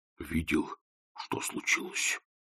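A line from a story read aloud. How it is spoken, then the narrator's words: Whispered. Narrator (Russian): шепнул Кардинг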